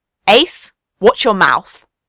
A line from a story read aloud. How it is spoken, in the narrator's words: Ben said sharply